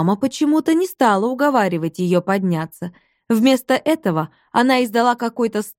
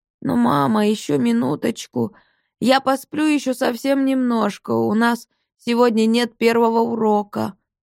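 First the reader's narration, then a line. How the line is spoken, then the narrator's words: Sleepy mumble. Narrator (Russian): сонным голосом пробормотала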